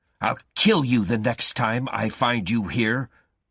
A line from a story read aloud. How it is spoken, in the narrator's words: Guy shouted